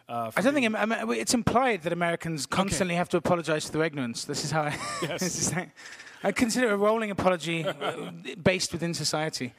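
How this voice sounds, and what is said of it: British Welsh-border accent. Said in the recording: “your accent sounds to me British ... my family was Welsh, and I grew up on the border”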